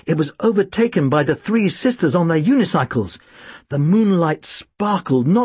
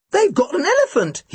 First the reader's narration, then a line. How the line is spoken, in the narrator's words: he exclaimed